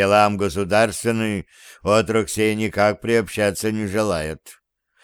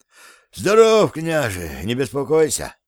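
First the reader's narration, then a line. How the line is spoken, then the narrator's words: Sorrowful sigh. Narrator (Russian): горестно вздохнул боярин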